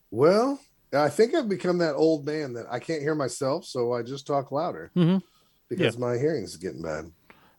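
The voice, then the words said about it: Hoarse, worn-out voice. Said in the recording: “My voice is shot. ... We've been screaming the whole episode”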